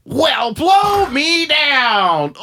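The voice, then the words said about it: Popeye cartoon sailor voice. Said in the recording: “a fucking Popeye impression”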